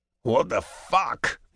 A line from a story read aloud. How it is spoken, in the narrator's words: he growls